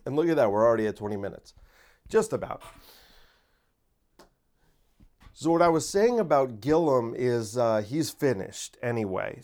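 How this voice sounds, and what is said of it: Tired, strained, low-energy voice. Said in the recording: “Sorry, I had a long day. My voice is failing me ... I'm not as high energy as usual.”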